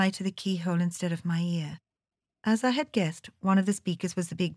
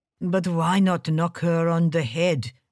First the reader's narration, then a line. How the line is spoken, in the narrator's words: He growled